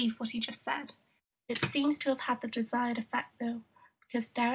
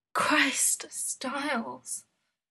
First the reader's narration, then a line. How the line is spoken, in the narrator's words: Derek groans